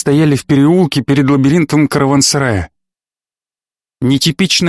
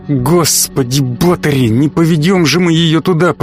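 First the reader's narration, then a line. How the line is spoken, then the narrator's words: Hissed. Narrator (Russian): прошипел Куделка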